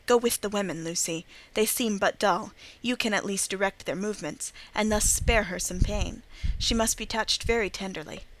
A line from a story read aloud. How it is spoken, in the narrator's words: whispered to me